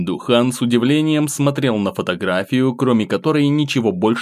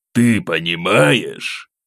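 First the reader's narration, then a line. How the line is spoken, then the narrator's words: Rough. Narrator (Russian): Грубо начал Ким Духан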